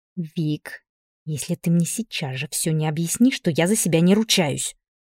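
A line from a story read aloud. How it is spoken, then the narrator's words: Angry hiss. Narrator (Russian): прошипела Машка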